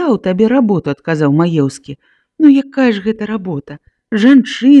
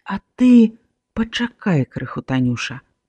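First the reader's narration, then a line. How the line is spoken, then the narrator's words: Quiet speech. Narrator (Belarusian): ціха сказаў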